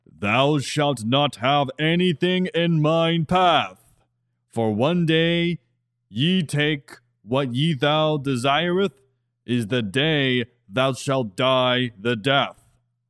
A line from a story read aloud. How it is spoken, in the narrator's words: With a loud voice booming over the entire prairie they lived in, he yelled